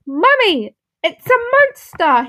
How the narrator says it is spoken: cried

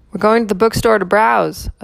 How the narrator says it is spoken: a silver-haired man called out

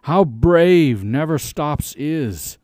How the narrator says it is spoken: they cried out to each other

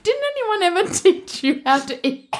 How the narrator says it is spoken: Me laugh, it's like all in my throat

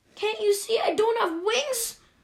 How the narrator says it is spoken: Rollo screeched

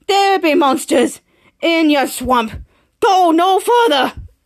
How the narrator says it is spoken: old man with a Scottish accent said

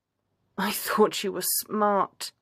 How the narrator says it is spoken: groans

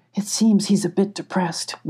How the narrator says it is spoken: whispered Emmy

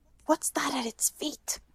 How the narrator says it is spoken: Hermione whispered

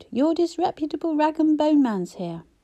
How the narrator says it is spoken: bellowed

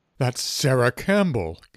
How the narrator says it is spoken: gasped the other boy

